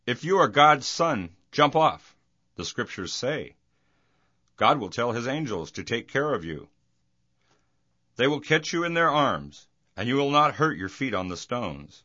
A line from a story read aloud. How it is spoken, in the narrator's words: Jesus answered